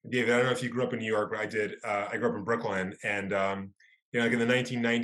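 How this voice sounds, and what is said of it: Usual voice. Nothing is said of it.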